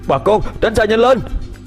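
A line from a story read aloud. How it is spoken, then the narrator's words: Loud shout. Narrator (Vietnamese): Đạt thét lớn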